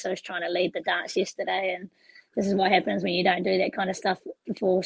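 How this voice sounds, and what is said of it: Hoarse, strained voice. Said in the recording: “That's why I've lost my voice. ... now I've lost my voice.”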